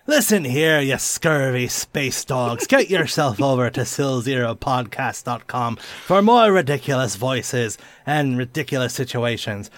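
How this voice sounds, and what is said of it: Exaggerated pirate accent, Irish or English. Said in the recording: “my horrible, is it Irish or is it English pirate accent”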